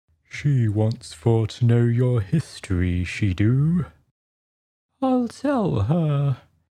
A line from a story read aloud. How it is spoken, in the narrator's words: said the Mock Turtle in a deep, hollow tone